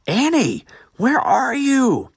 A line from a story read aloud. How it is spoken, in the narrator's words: Eric cried aloud again